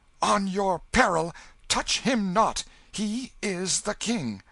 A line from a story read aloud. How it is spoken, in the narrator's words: the mock king cried out